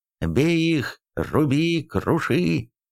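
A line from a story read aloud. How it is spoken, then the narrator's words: Riders roaring menacingly. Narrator (Russian): грозно взревели скачущие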